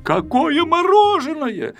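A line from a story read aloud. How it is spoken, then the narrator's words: Shout. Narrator (Russian): закричал Пилюлькин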